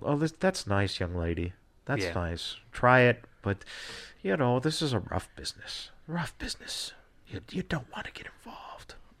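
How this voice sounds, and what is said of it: Condescending old-school trainer impression. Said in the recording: “that was actually a really good impression of a shitty-ass person”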